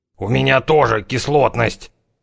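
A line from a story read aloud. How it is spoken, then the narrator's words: Hissing like a hungry cat. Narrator (Russian): прошипел он, словно голодный кот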